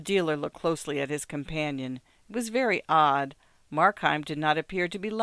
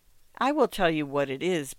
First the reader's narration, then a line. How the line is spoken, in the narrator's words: began the dealer with some sharpness